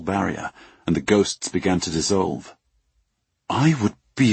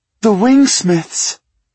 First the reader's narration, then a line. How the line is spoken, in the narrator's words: She cried